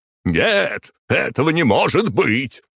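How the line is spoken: Male yelling. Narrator (Russian): заорал он

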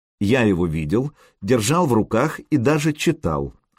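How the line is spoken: Calm. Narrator (Russian): спокойно произнес Сергей

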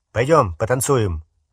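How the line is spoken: Abrupt suggestion. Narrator (Russian): резко предложил он Гермионе

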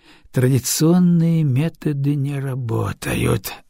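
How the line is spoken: Sighing. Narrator (Russian): вздохнул Хасина

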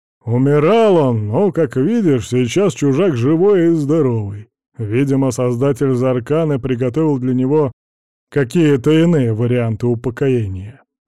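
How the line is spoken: Grumbling. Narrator (Russian): проворчал Варис

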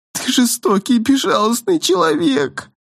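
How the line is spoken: Whimpering. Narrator (Russian): прохныкала принцесса

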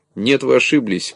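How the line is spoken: Laughing. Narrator (Russian): продолжал смеяться

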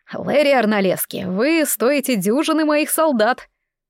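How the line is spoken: Barked. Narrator (Russian): Он рявкнул

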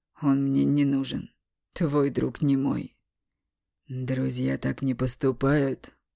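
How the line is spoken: Through gritted teeth. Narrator (Russian): Сквозь зубы процедил Бестужев

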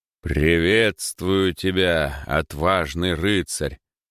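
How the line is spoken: Deep bass rider voice. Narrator (Russian): пробасил первый из серых всадников

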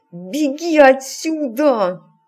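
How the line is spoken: Command through gritted teeth. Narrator (Russian): сквозь зубы скомандовал Саймон

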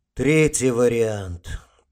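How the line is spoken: Over intercom. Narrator (Russian): произнес адмирал в переговорник

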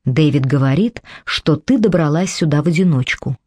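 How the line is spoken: Plain. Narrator (Russian): сказала Мэдди

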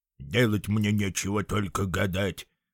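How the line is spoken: Grumbling. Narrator (Russian): проворчал Эдуардо

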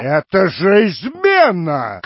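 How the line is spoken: Shouted. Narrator (Russian): крикнул Юджин Лоусон

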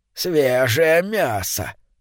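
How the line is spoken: Muttering under breath. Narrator (Russian): бормотала она себе под нос

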